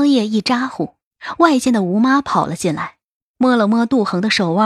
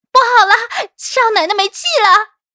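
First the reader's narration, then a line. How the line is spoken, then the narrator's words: Frightened scream. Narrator (Chinese): 吓得哇一嗓子叫了起来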